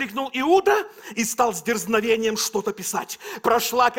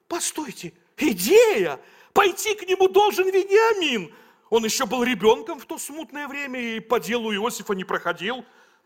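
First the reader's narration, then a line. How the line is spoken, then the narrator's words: Exclaiming. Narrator (Russian): Левий воскликнул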